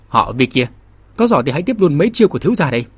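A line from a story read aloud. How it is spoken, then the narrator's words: Forced loud laugh, strained. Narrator (Vietnamese): Thiên Vũ Lôi cảm thấy hố khẩu, cơ hồ tê liệt, nhưng cũng cố cười lớn nói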